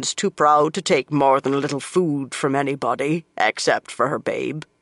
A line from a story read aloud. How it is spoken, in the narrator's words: she said, in a deep voice for a woman